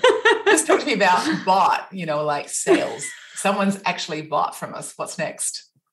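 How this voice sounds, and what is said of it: Put-on American accent. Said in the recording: “I'm practicing my American accent.”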